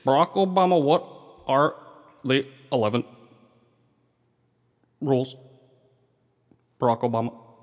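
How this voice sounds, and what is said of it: Imitates another person's voice. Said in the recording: “break out your Eric Holder impersonation ... Well, now it's Obama.”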